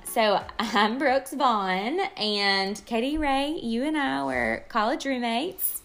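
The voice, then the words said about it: Sweet Southern American accent. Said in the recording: “her sweet Southern accent”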